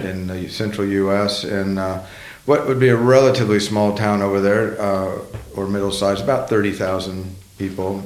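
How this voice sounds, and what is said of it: Oklahoma twang accent. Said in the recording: “twang in your accent”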